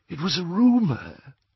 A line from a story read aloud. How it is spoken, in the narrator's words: whispered Ollivander